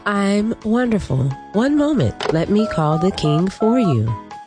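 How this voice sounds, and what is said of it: Polite telephone operator voice. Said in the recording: “Are you talking like an operator? ... Yes.”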